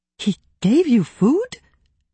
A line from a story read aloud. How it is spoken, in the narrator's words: Daria gasped